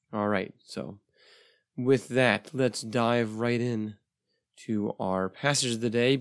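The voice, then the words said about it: Voice still recovering, slightly rough. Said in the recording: “my voice is slowly coming back. It's a little better than it was a couple episodes ago. I was sick over a month ago, and my voice has not yet recovered”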